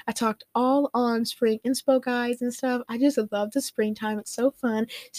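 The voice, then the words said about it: Congested, sick-sounding voice. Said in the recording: “My voice is so weird today... I haven't been feeling my best... I get a little bit sick... the pollen is really, like, bothering my nose... I'm sorry if I sound, like, really nasty and weird.”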